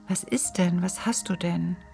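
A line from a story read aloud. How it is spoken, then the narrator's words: Anxious question. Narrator (German): fragte Biwak ängstlich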